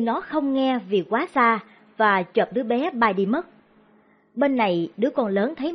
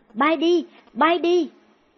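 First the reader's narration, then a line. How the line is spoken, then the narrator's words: Panicked scream. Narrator (Vietnamese): Cô hốt hoảng hét lên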